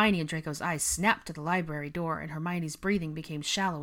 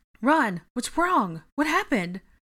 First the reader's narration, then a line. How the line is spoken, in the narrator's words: Hermione asked urgently